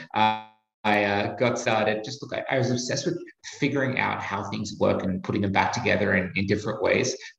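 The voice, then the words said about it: Australian accent. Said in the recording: “you can probably tell from my accent, I'm Australian.”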